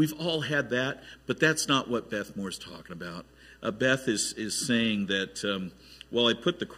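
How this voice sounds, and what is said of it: Usual voice. Nothing is said of it.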